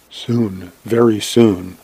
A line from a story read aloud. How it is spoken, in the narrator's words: whispering